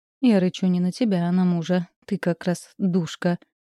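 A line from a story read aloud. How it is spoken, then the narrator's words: Tired sigh. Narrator (Russian): вздохнула устало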